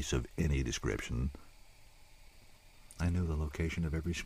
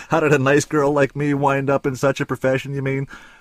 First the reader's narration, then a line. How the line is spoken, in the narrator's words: I roared with laughter as I gave the traditional punchline